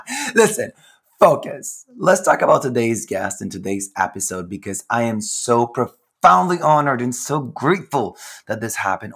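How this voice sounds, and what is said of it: Raspy voice. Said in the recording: “my raspy voice, honey, hi, it is due to a lot of primal scream therapy”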